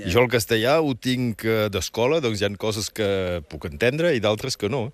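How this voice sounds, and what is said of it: Roussillon Catalan accent. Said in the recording (Catalan): “tinc un accent diferent, que no és accent francès ... que és molt bonic, que és l'accent del Rosselló”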